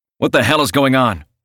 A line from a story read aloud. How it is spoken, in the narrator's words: I shout, trying to catch my breath